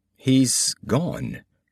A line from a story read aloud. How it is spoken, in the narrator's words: he said in a flat voice